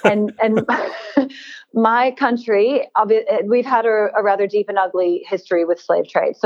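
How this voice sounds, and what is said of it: American accent. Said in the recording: “I'm American. I don't know if you can tell from my accent.”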